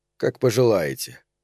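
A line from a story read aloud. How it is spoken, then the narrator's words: Cold agreement. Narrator (Russian): холодно согласился я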